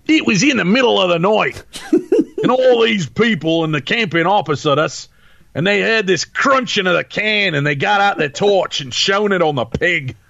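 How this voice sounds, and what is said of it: Put-on Australian accent. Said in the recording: “I will do my best again, Tim, to tackle the very, very beautiful and eloquent Australian accent.”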